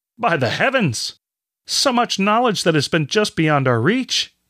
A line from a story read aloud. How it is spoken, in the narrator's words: Brother Vaughn exclaimed